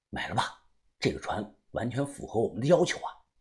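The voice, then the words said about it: Quiet, hushed speaking. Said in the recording (Chinese): “小声的说”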